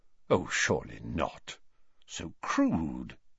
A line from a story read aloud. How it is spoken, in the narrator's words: Dumbledore said quietly